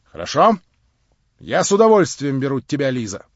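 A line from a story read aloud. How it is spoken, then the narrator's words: Loud. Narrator (Russian): Тотчас же громко прибавила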